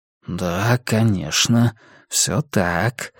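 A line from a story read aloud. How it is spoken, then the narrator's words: Whispering inner voice. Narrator (Russian): зашептал голос в голове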